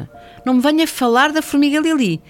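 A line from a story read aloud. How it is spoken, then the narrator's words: Father shouting reply. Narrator (Portuguese): respondeu o pai aos gritos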